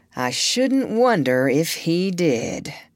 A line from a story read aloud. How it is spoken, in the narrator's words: the doctor answered slowly